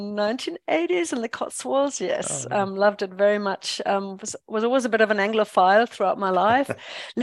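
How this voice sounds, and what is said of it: Mixed German-influenced English accent. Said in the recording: “as you can hear from my accent ... I'm a born and bred German ... I guess my accent is just all over the place now”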